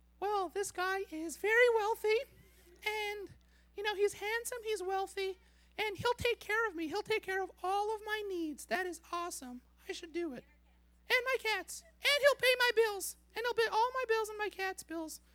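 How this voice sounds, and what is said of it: Character voice of a woman. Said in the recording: “her voice would sound something like... I'm going to try to do my best Mindy impression.”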